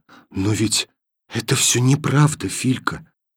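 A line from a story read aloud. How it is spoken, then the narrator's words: Whisper. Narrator (Russian): сказала она шепотом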